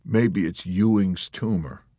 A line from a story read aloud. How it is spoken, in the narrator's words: Yossarian muttered sarcastically